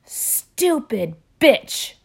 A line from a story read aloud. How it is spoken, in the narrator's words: she yells again